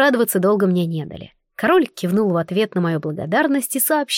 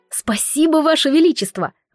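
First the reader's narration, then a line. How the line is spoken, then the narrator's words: Gloating exclamation. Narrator (Russian): воскликнула я, дав себе пару секунд позлорадствовать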